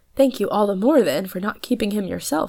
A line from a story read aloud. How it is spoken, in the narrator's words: said Fanny, laughing the old blithe laugh again